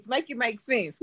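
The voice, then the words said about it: Put-on spicy white-person voice. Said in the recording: “in my spicy white voice,”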